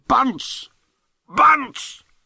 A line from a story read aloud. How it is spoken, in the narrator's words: He yelled in a voice that thundered like Krakatoa